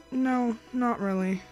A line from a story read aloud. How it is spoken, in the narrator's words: she sighed